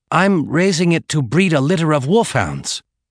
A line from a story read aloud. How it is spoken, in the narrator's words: Chun said somewhat desperately